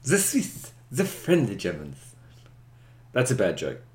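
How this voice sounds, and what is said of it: Put-on German-style accent. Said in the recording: “Excuse my accent.”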